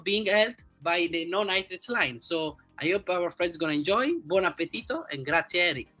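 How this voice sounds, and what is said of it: Italian accent. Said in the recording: “my funny Italian accent ... that great Italian accent”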